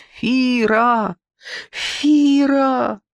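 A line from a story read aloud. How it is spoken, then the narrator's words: Loud shout. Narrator (Russian): громко крикнуть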